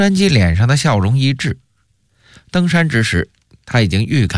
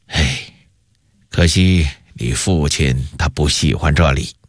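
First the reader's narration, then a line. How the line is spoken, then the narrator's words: Wistful sighing emperor. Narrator (Chinese): 永乐帝微笑着，叹了口气说道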